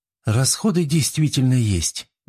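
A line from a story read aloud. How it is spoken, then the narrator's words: Sighing young woman. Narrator (Russian): вздохнула девушка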